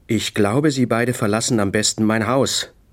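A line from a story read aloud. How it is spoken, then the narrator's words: Angry. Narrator (German): sagte wütend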